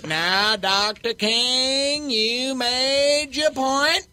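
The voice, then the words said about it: Andy Griffith impression. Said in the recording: “does a great Andy Griffith impression, and I am not doing Andy Griffith. I'm doing Mark Wilmore doing Andy Griffith.”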